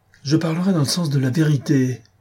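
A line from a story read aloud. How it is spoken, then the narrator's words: Ardent exclamation. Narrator (French): s'écria Beautrelet ardemment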